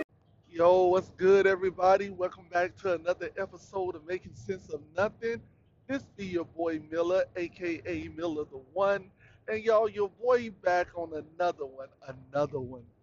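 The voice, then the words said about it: Imitating DJ Cali's voice. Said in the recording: “in my DJ Cali voice.”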